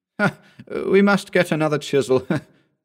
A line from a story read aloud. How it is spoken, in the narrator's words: said he, laughing